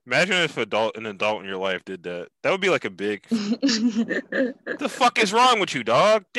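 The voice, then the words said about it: Put-on Philadelphia accent. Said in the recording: “I wanna keep doing the Philly accent, but I'm losing it.”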